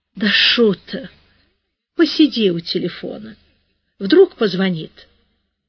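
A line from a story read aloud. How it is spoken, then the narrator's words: Sleepy slurred mumble. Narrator (Russian): Подруга начала судорожно зевать, потом, еле-еле ворочая языком, пробормотала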